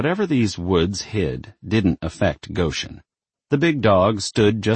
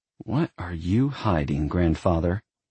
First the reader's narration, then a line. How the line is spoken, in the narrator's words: Her lips flattened as she muttered